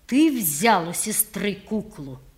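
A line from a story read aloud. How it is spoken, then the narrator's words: Clear and sharp. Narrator (Russian): упали вдруг на меня так отчетливо и резко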